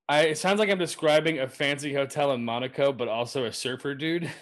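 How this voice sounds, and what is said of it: Usual voice. Nothing is said of it.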